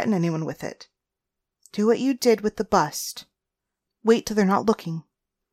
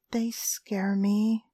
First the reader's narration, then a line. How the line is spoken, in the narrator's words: I whispered